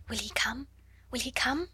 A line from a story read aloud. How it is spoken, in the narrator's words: she whispered